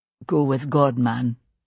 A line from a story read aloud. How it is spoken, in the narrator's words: he said quietly